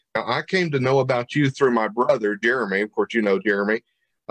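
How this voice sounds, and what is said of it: Tennessee Southern accent. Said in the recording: “this uh, Tennessee hillbilly. You hear my uh, accent”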